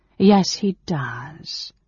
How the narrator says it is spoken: Alhanna returned coolly

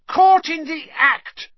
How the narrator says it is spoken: Ernie yelled, his face stark white

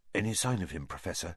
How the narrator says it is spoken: asked Percy in a whisper

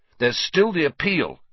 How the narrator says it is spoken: said Ron, fiercely

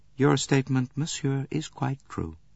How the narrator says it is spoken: said the Countess

